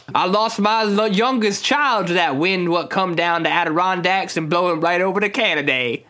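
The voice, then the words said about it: Put-on weird local lake accent. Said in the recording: “we all have this weird accent out here”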